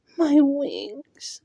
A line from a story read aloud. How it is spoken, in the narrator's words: the fairy whimpered